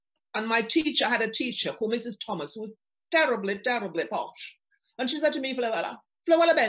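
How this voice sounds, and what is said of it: Usual voice. Nothing is said of it.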